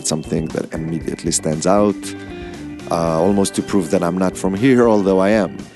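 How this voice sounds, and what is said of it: Israeli accent in English. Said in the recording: “I have an accent ... I'm also Israeli”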